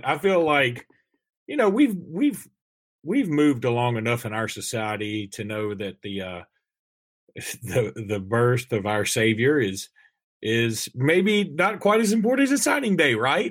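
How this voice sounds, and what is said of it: Very sarcastic delivery. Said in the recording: “I'm saying that very sarcastically”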